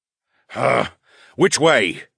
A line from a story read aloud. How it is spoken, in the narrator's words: the Duke groaned